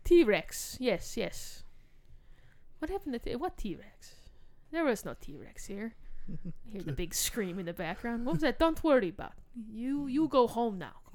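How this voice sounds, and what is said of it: Poor put-on Russian accent. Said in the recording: “It's my terrible Russian accent.”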